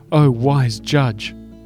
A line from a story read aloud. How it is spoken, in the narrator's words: cried